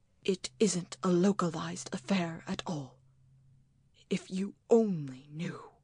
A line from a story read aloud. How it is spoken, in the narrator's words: whispered